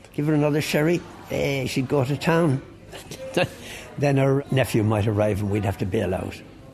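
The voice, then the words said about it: Slight Cockney accent. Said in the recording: “Sometimes you can just hear the hint of a Cockney accent.”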